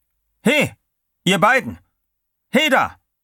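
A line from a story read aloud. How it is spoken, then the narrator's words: Guard calling again. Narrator (German): Wieder rief der Wärter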